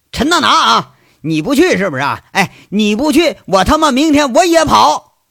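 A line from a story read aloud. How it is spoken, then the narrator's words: Shouting. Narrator (Chinese): 杨伟在那喊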